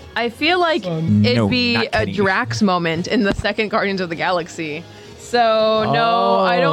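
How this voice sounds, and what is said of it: Usual voice. Nothing is said of it.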